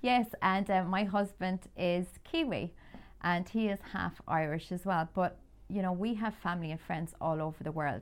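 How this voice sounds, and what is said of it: Irish accent. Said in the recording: “I'm Irish, as you can tell from my accent.”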